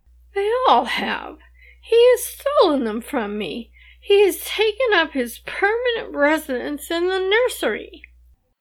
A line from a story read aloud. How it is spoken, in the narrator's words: Alice, whimpering